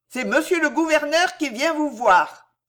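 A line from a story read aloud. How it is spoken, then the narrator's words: Jailer shouting through door. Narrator (French): cria le geôlier à travers la porte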